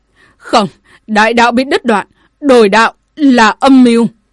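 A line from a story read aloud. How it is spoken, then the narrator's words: Decrepit old man's furious roar. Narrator (Vietnamese): Một lão thiền vương mục nát không còn hình dáng, cả giận gầm lên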